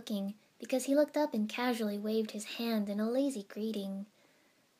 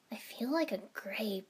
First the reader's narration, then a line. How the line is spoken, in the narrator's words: I muttered in disgust